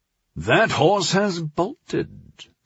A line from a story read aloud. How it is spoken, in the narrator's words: Dreyfus said in a barely awake drawl